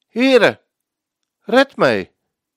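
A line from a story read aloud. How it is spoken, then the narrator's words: Called out. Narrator (Dutch): riep hij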